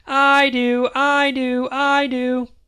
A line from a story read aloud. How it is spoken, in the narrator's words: Daddy, Maggers, and I shouted in unison